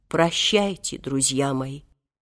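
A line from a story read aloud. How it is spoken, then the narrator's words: Weeping, sepulchral voice. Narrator (Russian): заплакал, гробовым голосом сказал им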